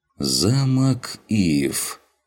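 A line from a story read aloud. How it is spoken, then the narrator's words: Drawling. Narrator (Russian): протянул Дженнифер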